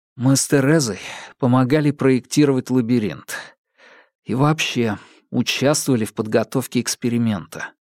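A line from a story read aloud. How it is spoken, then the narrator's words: Deep sigh, then speaking. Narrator (Russian): Томас глубоко вздохнул, затем произнес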